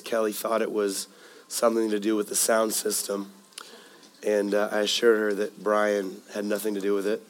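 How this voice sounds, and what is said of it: Hoarse, raspy voice. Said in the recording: “I'm a bit hoarse. Last week I started losing my voice ... the raspiness ... got smacked with a cold”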